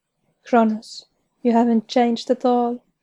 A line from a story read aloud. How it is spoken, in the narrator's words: say sadly